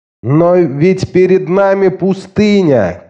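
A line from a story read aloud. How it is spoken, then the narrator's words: Nursing woman shouting. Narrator (Russian): крикнула женщина, кормившая грудью ребенка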